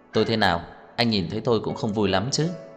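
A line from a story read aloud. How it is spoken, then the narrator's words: Slow, smiling, unhurried. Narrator (Vietnamese): Trang Hạo Nhiên chậm rãi mỉm cười, quay đầu nhìn Tưởng Thiên Lỗi thong thả nói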